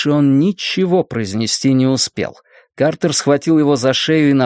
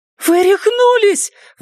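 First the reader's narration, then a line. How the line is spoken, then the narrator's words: Exclaiming. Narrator (Russian): воскликнула Джинни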